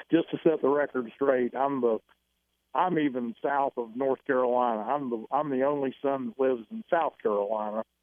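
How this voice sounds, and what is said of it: Southern US accent. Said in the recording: “you've got a southern accent there. It's North Carolina.”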